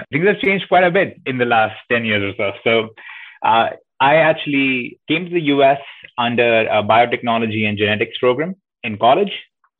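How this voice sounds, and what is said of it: Slight Indian accent. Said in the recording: “I was born in India, if you couldn't guess by the name and the slight accent”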